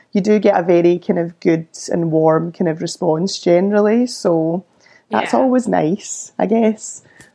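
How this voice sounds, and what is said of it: Posh Glasgow Scottish accent. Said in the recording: “he thinks I'm like posh Glasgow ... Oh, I love your accent.”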